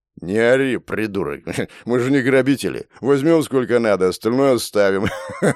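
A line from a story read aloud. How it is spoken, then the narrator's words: Hoarse laughing thug. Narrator (Russian): Хулиган хрипло засмеялся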